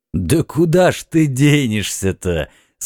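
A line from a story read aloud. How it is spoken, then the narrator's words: Laughing question. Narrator (Russian): смеясь спросил эмир Дауд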